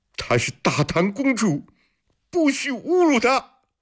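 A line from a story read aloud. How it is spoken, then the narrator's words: Angry shout. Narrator (Chinese): 穆易宽愤怒地大喊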